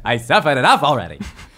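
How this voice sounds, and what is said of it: Comedic put-on character voice. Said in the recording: “I did a little voice? ... that's not bad”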